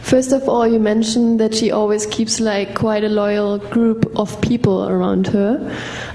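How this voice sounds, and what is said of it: German accent. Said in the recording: “you probably hear my accent, I'm German.”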